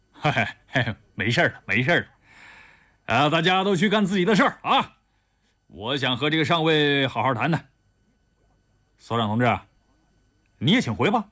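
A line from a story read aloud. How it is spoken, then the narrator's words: Laughing. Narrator (Chinese): 丁伟笑着说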